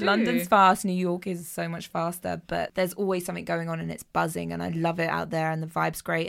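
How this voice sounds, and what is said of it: London English accent. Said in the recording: “I bet they London, love your accent. ... they kept me talking longer just because of the accent.”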